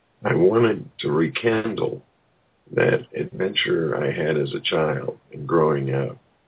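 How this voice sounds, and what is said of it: Strained, impaired voice. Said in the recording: “You'll have to excuse my voice. I've been out in the wind today. ... I have allergies”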